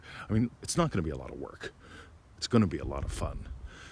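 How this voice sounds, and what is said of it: Tired-sounding voice. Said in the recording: “I'm tired. Can you hear it in my voice?”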